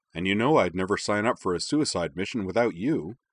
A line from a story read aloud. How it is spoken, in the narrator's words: Joker added cheerfully